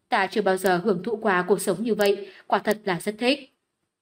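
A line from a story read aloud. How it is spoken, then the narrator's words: Soft, smiling. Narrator (Vietnamese): Tiểu Y Tiên mỉm cười ... nhẹ giọng nói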